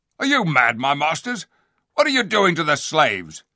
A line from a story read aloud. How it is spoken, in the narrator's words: one of the soldiers said sharply